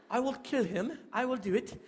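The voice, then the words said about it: British accent. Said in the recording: “You didn't know that ... was from Britain, did you? ... British accent.”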